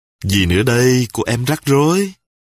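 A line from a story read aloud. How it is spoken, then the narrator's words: Smiling. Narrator (Vietnamese): Ngọc ... mỉm cười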